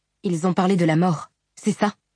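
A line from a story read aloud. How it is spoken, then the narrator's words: Exclaimed. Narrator (French): s'exclama Shallan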